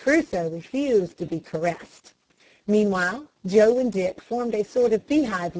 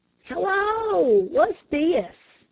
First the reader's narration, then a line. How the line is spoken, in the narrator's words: exclaimed Dick